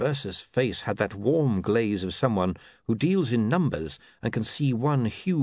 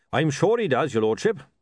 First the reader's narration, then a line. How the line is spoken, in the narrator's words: said Goodmountain cheerfully